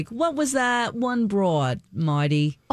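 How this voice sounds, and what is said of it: Thick New York accent, old man. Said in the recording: “He was from New York. Grandma he had this thick accent.”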